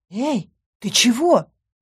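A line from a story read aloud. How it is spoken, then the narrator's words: Exclamation. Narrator (Russian): воскликнула я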